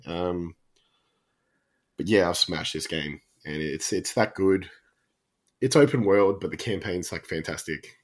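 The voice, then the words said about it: Sick, worsening voice. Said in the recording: “I've been sick and you can hear my voice is actually getting worse as we record.”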